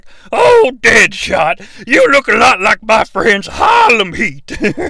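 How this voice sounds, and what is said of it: Colonel Sanders-ish Southern accent. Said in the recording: “Rick Flagg's accent. It's kind of Colonel Sanders-ish. A little Colonel Rob Parker, but not too Rob Parker.”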